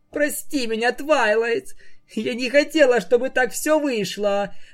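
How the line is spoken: Sobbing. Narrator (Russian): Всхлипывая, произнесла единорожка

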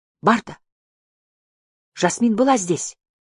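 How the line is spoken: Male exclamation. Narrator (Russian): воскликнул он

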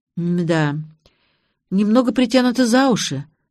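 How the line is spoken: Sighing. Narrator (Russian): вздохнула я

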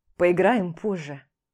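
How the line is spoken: Snorting. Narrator (Russian): хмыкнув

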